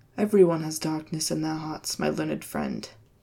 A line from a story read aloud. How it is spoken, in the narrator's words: Barak said and smiled grimly